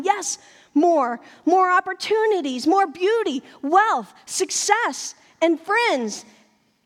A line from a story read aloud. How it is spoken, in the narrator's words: excited with our ideas of our own story, start yelling